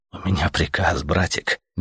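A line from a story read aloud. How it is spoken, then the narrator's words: Soft reply. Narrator (Russian): мягко ответил Летяга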